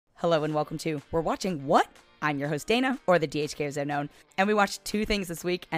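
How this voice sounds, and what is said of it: Hoarse, nearly lost voice. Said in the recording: “I've lost my voice. ... thank you for your understanding for how I sound this episode”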